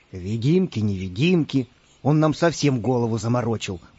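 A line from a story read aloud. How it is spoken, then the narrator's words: Grumbling. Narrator (Russian): пробурчал пират Буль-Буль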